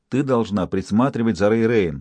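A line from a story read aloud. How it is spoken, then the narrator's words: Plain, mother. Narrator (Russian): сказала ей мать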